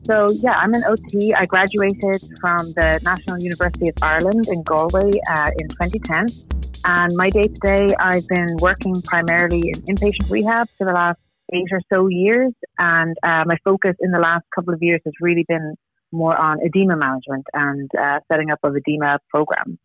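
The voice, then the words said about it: Non-American accent. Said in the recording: “you have that awesome accent, which makes you sound smarter than everybody here in America”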